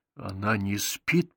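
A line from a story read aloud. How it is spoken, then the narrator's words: Whisper. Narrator (Russian): прошептал я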